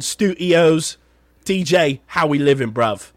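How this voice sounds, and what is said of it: Put-on British accent. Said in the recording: “my British accent's a bit good there, bruv ... that's a better than a bit good”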